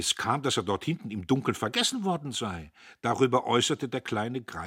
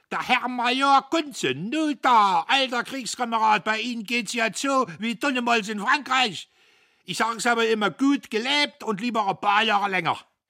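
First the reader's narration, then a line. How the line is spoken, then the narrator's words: Tipsy flushed shouting. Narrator (German): Er schwankte herbei, seine Backen glühten und er schrie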